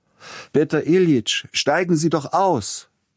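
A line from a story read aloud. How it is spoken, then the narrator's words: Young man's metallic call. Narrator (German): rief der junge Silotti mit der schönen metallischen Stimme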